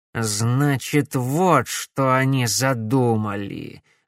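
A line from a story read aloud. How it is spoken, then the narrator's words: Angry mutter. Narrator (Russian): злобно пробормотал Корнелиус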